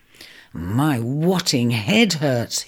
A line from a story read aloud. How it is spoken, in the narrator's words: he groaned through gritted teeth